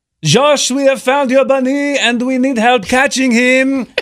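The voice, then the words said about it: Swiss accent. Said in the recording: “He's from Switzerland. ... He has the best accent.”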